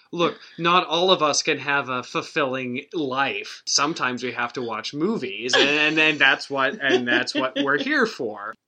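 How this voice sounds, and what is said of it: Radio voice. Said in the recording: “has a radio voice”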